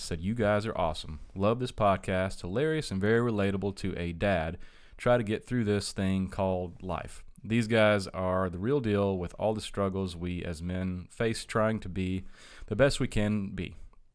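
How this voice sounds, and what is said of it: Robotic reading voice. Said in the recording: “do your robot voice? Because you're doing a great job.”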